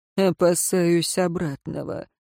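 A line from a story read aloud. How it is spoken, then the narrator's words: Gloomy mutter. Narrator (Russian): мрачно пробормотал Тиен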